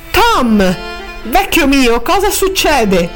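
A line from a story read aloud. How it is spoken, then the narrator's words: Exclaimed. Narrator (Italian): esclamò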